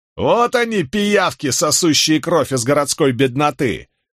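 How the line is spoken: Shouting. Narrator (Russian): крикнул кто-то

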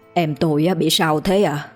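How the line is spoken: Trembling. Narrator (Vietnamese): Ông Hoàng, anh trai cô bối, run run

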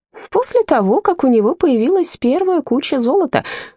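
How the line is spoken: Laughing. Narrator (Russian): рассмеялся Робер

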